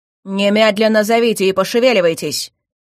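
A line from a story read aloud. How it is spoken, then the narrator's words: Barked command. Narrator (Russian): рявкнул Харн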